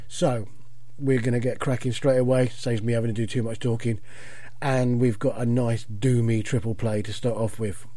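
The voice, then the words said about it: Croaky, hoarse voice. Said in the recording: “my voice sounds a little bit croaky. I've got a chest infection”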